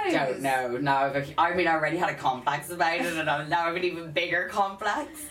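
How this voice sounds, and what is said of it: South County Dublin Irish accent. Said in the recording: “it's a South County Dublin accent”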